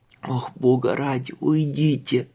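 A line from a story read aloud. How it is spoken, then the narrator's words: Moaning. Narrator (Russian): простонал он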